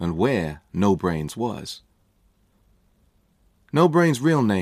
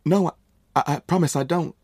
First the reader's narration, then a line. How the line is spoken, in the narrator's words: stammered